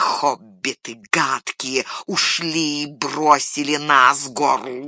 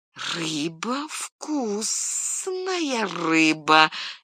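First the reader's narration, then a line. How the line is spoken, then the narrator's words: Uncertain, trailing off. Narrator (Russian): неуверенно повторил голос и смолк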